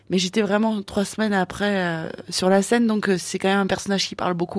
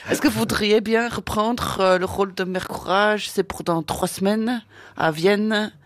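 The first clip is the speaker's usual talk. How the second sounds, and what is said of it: Deliberately bad put-on accent. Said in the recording (French): “Je prends un accent pourri, excusez-moi, mais c'est juste pour faire rigoler.”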